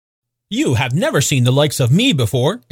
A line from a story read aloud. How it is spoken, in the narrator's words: exclaimed the spirit